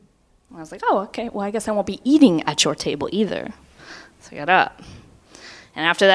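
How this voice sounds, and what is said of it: Usual voice. Nothing is said of it.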